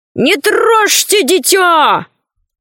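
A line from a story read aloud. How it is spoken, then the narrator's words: Distant shout. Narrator (Russian): Ложкин закричал из леса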